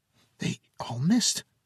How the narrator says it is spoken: the boy whispered with amazement

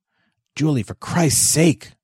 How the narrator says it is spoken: Joseph hissed

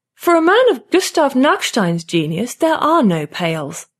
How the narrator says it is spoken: Lotta says haughtily

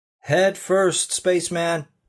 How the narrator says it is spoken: one of the guys shouted

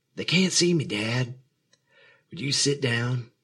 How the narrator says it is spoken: he said, still whispering, though he wasn't sure it mattered

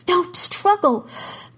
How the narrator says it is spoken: Kara gasped

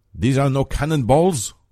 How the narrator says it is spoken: Bessarion exclaims, red-faced with outrage

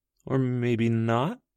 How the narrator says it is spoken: Abby said, a little nervously

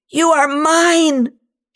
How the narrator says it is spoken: she screams

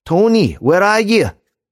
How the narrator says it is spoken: cried

